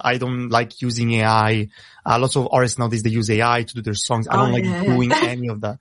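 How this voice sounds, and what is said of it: Italian accent in English. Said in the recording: “I'm trying now to get better to rap in English because it's obviously not my first language. You hear my accent a lot, but in Italian just becomes natural.”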